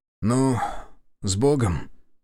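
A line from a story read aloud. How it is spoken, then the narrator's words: Muttered. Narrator (Russian): пробормотал он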